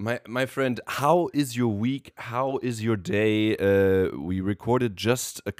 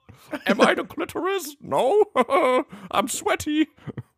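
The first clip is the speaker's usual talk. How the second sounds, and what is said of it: Funny put-on voice. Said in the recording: “I'm gonna do a funny voice.”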